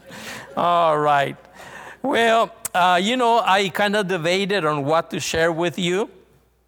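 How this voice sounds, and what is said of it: Mexican Spanish accent in English. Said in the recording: “I'm actually Mexican. I was born and raised in the northern part of Mexico, but I've been in Uruguay 28 years ... I have an accent ... So I'm the man with the accent.”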